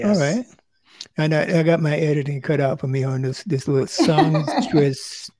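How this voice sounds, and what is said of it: North Carolina accent. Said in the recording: “That's my North Carolina accent coming out, I think.”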